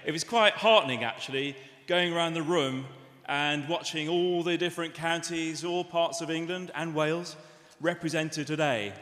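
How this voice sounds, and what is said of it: Liverpool accent. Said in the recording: “as you can tell from my accent, born and bred from Liverpool”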